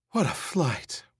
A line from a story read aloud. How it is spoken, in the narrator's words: Rachel Rosen said breathlessly